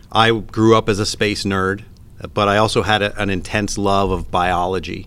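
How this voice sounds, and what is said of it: Canadian English accent. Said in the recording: “if my accent hasn't given me away yet, I'm originally from Canada”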